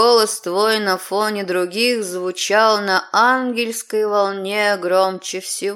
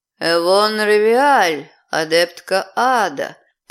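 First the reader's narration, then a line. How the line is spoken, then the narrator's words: Drawling. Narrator (Russian): протянул мужчина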